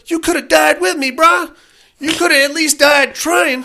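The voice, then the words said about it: Weak imitation of a rapper's accent. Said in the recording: “ethnic up this accent of yours little bit more ... I'm not very good at this. But it's not an ethnic accent. It's a Snoop Dogg accent.”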